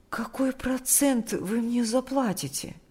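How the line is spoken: Timid question. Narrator (Russian): спросила робко

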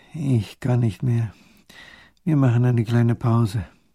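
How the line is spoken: Exhausted groan. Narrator (German): der kleine Großherzog stöhnt

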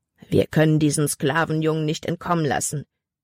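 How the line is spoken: Growled. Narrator (German): knurrte ein anderer

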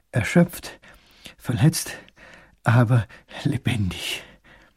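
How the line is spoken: Panting. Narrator (German): keucht der kleine Großherzog

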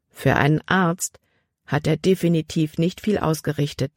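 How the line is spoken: Plain. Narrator (German): sagte Libby

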